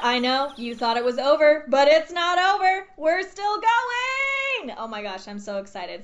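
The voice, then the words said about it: Excited yelling into the microphone. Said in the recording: “Sorry for yelling in my microphone.”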